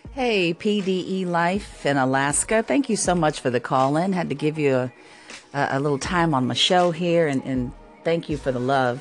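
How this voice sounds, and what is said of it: Polished radio announcer voice. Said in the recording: “the compliments on the radio voice thing”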